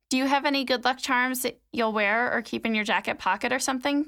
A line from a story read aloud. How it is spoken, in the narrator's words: Tally asked